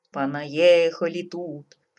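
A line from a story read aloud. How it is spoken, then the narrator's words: Grumbling under breath, tsar. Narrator (Russian): проворчал себе под нос царь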